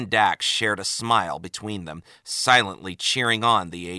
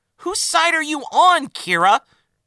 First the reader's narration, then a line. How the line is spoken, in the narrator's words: exclaimed Dax